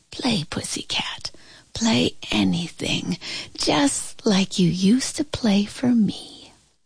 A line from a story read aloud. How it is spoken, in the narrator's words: I heard my grandma whisper